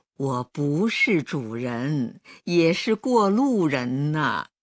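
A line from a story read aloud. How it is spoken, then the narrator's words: Old man, laughing. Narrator (Chinese): 老人才笑道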